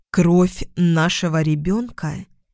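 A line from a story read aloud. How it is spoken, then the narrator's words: Slow, dangerously quiet. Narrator (Russian): Медленно повторила я, и голос прозвучал опасно тихо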